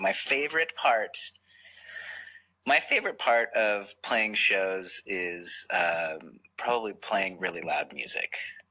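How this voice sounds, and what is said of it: Calm measured NPR-style voice. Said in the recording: “I gotta get my NPR voice back.”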